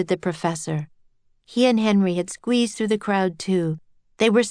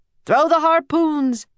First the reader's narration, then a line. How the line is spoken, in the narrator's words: yelled a sailor